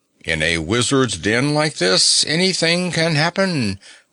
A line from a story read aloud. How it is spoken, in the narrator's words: groaned the ox